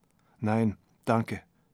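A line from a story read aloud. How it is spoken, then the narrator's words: Saying quietly. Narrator (German): sagte Kirsten leise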